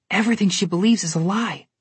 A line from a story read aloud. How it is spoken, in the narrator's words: Connor whispered to his sister